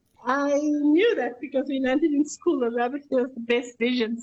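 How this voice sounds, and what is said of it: Voice affected by a cold. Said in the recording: “Sorry for my voice, I've got a bit of a cold in my lungs.”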